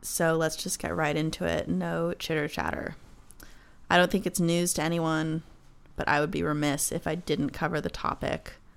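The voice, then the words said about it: Sick, rough-sounding voice. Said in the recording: “Excuse my voice. I'm sick with what I can only describe as the black lung.”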